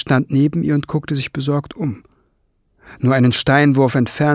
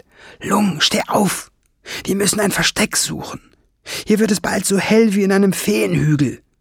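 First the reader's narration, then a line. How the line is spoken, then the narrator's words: Hissed. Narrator (German): zischte Schwefelfell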